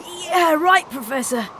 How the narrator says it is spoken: she wheezed

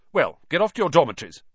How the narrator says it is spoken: said Percy sternly

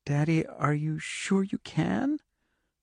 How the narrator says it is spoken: Her voice was small and very scared

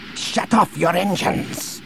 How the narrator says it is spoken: he barked into the link

